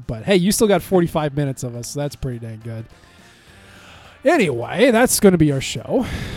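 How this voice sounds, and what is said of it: Hoarse voice cutting out. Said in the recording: “My voice is cutting out”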